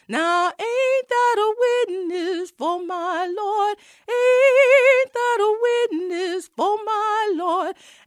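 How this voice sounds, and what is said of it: Sung with a slight dialect. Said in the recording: “there was a little dialect in there”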